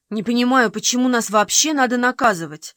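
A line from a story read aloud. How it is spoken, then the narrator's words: Fairly angry. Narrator (Russian): довольно сердито сказала Фейт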